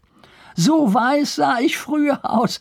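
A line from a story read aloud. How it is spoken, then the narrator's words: Laughing. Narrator (German): fügte er lachend hinzu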